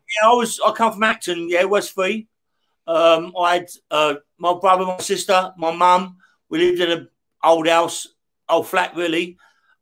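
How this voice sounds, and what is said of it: London accent. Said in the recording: “from the accent, you're a Londoner”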